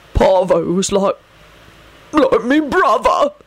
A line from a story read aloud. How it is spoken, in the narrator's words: choked out